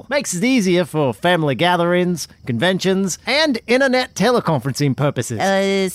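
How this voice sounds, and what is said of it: Put-on Australian accent. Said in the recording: “why you spoke with an Australian accent”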